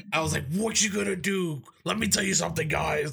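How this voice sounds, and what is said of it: Gruff Batman-like imitated voice. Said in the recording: “doing a fucking Batman voice ... It was a Batman slash Hulk Hogan voice-ish ... my throat was hurting because I was talking like this”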